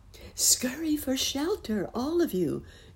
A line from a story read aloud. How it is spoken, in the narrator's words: cried Nurse Jane